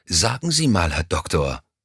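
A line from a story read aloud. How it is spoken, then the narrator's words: Grumpy grumble. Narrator (German): brummte Stuyvesant übellaunig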